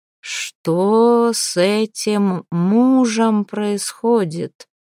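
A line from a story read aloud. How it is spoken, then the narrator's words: Slow, haughty emperor. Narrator (Russian): медленно с надменностью спросил император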